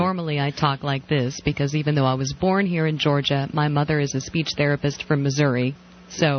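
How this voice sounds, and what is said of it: Usual voice. Nothing is said of it.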